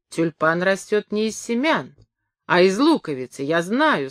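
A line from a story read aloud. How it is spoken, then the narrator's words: Plain. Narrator (Russian): сказала она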